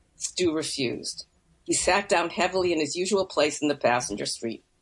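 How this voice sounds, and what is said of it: Usual voice. Nothing is said of it.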